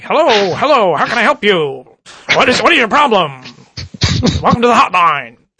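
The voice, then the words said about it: 1940s Bogart-style noir accent. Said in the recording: “a 1940s accent ... the Bogart? ... Yeah, exactly. You know, like a cop drama from, you know, the 1940s.”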